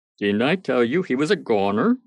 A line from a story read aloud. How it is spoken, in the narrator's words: said he, chuckling over his own joke